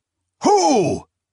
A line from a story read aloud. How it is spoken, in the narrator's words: Kinjoza, Gothyelk, and Holwarga cried out in near unison